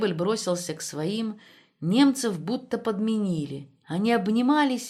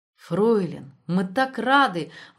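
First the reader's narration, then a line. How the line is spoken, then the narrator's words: Exclaimed. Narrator (Russian): воскликнул Штребль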